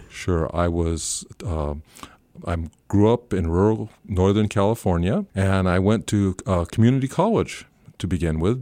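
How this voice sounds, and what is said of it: Non-New Zealand accent. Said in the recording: “my accent is not a New Zealand accent ... have showed no tendency to lose my accent”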